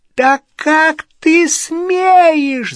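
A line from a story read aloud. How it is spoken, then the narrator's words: Squeaky, shrill. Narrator (Russian): запищала тетя Петунья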